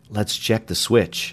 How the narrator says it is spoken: he murmured

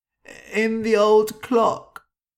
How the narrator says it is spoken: he cried

